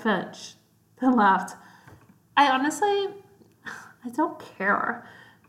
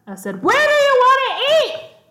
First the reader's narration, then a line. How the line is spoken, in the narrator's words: Donovan yelled